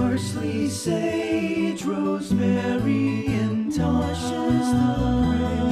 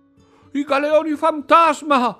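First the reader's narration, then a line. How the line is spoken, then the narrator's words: Exclaimed. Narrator (Italian): esclamava Gigi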